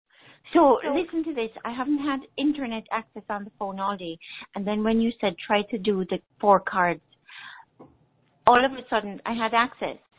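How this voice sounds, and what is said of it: Jamaican accent. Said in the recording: “I love your accent... Originally, I'm from Jamaica... it's a beautiful accent.”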